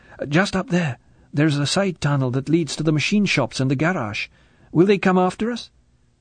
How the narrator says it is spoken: She said breathlessly

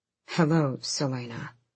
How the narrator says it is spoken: he said as calmly as he could, well aware that two females behind him could hear his thundering heart

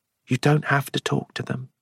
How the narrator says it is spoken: Alison said quietly

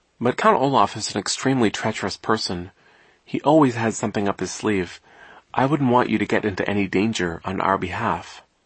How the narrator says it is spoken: Klaus said gently

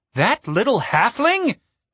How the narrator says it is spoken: Captain Righteous scoffed

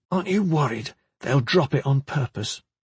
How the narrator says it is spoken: Kip whispered

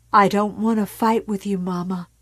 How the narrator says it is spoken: Carrie said, and her voice almost broke from her and dissolved

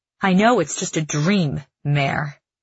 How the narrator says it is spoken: he snaps, like a child corrected in the classroom

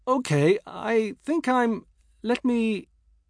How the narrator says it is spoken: I stammered

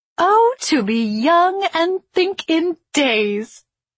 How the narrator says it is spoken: Ima laughed

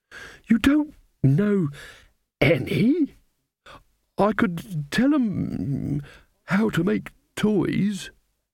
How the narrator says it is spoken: the old man quavered

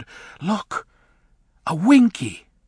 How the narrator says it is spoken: Bach whispered

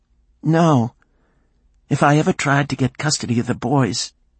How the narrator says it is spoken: Cheryl said, her voice choked with tears

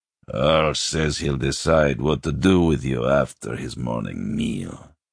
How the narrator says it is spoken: he growled

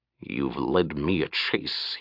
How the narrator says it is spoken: he said softly

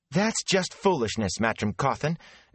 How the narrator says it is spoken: Egwene cut in angrily

